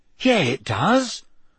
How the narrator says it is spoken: said Ron excitedly

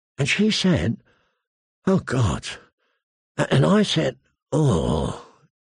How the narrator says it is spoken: he groaned

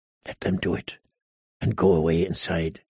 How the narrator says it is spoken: he heard himself whisper

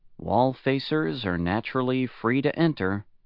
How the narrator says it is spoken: his neighbor answered quietly

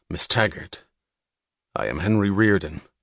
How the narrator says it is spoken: said coldly

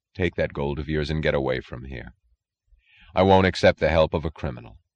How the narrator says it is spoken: he said quietly, his voice firm and dead

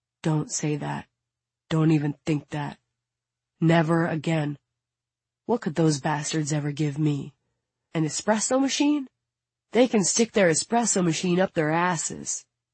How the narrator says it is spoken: answers calmly

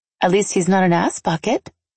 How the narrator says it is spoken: I said sweetly

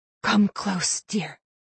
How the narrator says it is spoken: Gert gasped

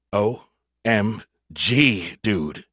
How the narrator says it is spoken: he gasped

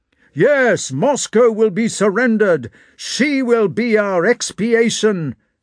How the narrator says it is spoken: shouted one man

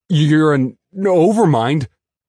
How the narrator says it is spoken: I stammered

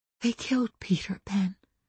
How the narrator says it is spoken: I whispered, but I let him hear my own grief

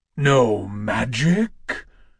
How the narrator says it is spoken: The growl of god-sized Kratos boomed across the city, raising echoes from distant mountains

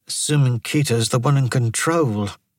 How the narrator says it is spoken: Murugan muttered

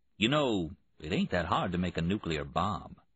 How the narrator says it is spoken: Oak Tree, the carpenter, a muscular black man the same age as Priest, said in a musing tone

